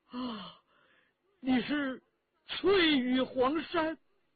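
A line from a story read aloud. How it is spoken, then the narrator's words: Man's surprised exclamation. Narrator (Chinese): 另一个回人叫了起来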